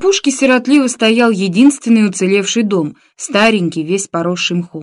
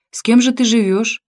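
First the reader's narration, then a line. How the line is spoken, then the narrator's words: Question after heavy sigh. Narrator (Russian): Начальник штаба партизанского отряда Василий Чухнов шумно вздохнул и спросил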